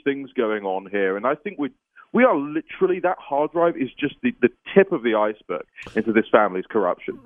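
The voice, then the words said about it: British accent. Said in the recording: “your weird British accent.”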